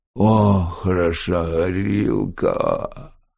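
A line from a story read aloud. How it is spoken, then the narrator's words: Drawn-out drawl. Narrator (Russian): протянул он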